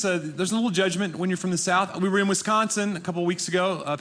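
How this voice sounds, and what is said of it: Southern Tennessee accent. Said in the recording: “I am from Nashville, Tennessee ... they think my accent is adorable ... your accent is precious”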